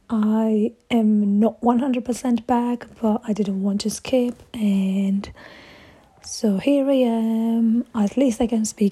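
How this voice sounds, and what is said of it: Voice strained by sore throat. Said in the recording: “As you can hear from my voice, my sore throat is still here.”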